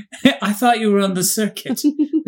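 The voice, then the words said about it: Faint British accent. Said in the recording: “This is also me trying to have that accent that he had. ... Very faintly British. ... Faintly British. Like just the slightest hint.”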